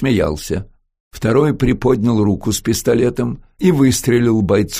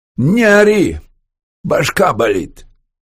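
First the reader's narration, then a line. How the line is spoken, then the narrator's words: Barking. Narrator (Russian): Тоже по-русски и тоже без малейшего акцента рявкнул капитан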